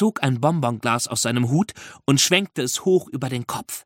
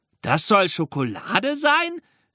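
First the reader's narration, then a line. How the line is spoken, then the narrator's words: Spectator calling out. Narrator (German): rief einer der Zuschauer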